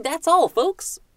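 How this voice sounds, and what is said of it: Cartoon pig character voice. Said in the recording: “I have to do my impersonation of Porky Pig at the end of those cartoons ... I don't know how good that was, but in my head, it's not too bad”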